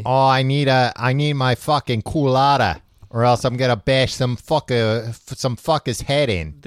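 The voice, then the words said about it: Bad put-on Boston accent. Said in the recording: “This is a bad Boston accent”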